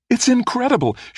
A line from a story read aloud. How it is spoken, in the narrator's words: she said, her voice brimming with excitement